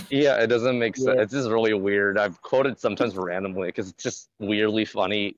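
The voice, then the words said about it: Slightly hoarse voice. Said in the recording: “My throat's a little too hoarse right now”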